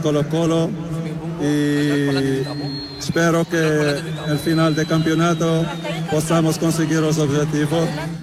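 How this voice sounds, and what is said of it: Spanish with a foreign accent. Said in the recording (Spanish): “tiene sus cositas de Mirko Josica, como habla ... tiene así como tiene ese acento”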